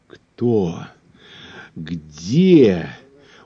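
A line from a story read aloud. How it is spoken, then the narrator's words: Alarmed hoarse rasp. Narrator (Russian): услышав про покойника, захрипел командор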